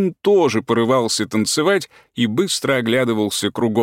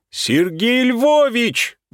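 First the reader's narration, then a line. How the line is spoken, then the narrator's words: Sudden yell. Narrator (Russian): вдруг завопил он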